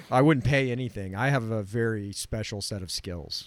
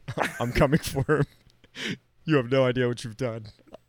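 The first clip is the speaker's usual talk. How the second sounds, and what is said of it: Imitates another person's voice. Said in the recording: “I'm Liam Neeson ... This is me, Liam Neeson. ... oh my God, this really is Liam”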